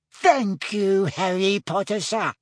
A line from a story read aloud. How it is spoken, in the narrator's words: squeaked Dobby happily